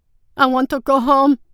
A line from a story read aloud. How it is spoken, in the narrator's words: Souchong bawled